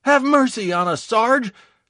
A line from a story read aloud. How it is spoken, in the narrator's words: Kosoglo begged